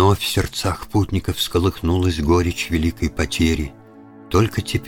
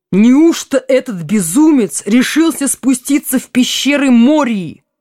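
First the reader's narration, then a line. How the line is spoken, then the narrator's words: Exclamation. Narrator (Russian): воскликнул Селеборн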